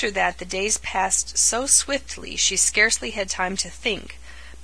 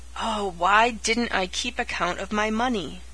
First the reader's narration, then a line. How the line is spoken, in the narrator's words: For the thousandth time she groaned